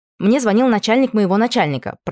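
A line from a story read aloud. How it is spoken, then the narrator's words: Rapid patter. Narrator (Russian): протараторил он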